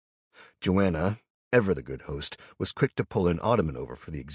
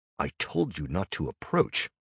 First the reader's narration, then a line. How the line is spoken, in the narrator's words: I replied